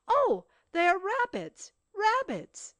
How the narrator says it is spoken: But suddenly he exclaimed

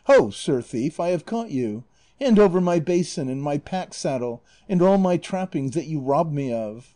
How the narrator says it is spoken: exclaiming

